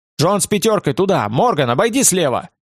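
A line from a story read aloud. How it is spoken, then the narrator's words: Shouted. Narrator (Russian): Терсигаль прокричал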